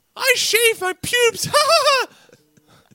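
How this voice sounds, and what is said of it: Mickey Mouse cartoon voice impression. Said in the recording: “good at that Mickey impersonation”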